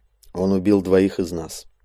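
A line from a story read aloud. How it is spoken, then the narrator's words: Grim. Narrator (Russian): мрачно произнес Драмс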